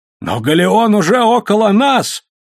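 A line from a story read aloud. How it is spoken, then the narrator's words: Exclamation. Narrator (Russian): воскликнул Виджителло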